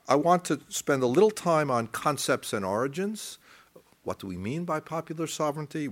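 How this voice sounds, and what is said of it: American accent. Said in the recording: “You might even guess by my accent. It's not modern China or even Germany, but the United States.”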